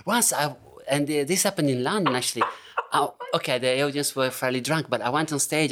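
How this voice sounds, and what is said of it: Italian accent in English. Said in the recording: “my accent will declare that I'm Italian”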